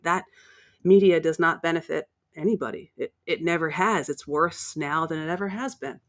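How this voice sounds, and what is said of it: American accent. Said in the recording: “You can probably tell by my accent that I'm from the States.”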